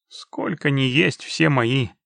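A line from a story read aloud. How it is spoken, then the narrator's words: Unfriendly mutter. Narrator (Russian): не слишком-то приветливо буркнул в ответ Геральт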